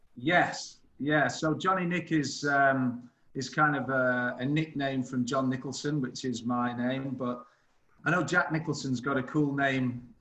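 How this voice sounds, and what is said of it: British accent. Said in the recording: “our first guest ever with a cool accent ... This the new British invasion.”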